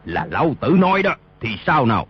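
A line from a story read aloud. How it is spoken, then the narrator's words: Loud angry shout. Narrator (Vietnamese): cao giọng quát lên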